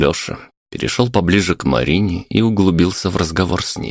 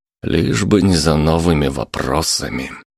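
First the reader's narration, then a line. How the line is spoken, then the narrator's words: Sighing. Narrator (Russian): вздохнул Александр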